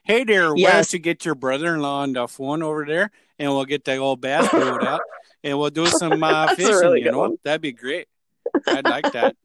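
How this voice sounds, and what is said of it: Exaggerated Minnesotan accent. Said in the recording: “I do that for Minnesotans all the time. Minnesotans or Wisconsins ... That is an amazing accent.”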